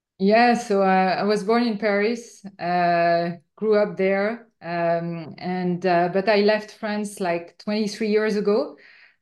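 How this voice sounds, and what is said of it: French accent in English. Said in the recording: “You're obviously from France ... It's difficult to hide with my accent ... my accent stayed with me. Even so, I made a lot of effort, it's still with me.”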